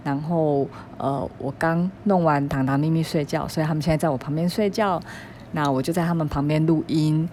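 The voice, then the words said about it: Quiet, hushed speaking voice. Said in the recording (Chinese): “我现在声音很小声 ... 我只能小小声的录音，因为我怕吵醒他们”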